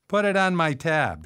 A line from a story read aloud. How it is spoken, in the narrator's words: she said, laughing